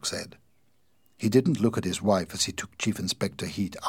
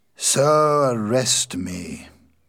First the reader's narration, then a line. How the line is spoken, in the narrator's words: Verloc said in a tired voice